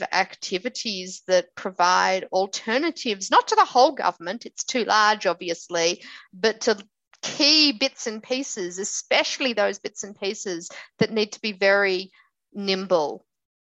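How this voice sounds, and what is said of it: Australian accent. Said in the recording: “you've got an Australian accent.”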